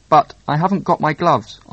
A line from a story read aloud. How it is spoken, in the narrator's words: answered Mr